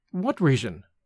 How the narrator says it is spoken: asked Evelyn in a frightened voice

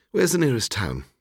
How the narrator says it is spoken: I said

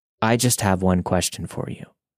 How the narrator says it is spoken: Talking into his sink, John calmly but sternly started to ask

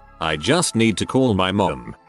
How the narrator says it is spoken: she said

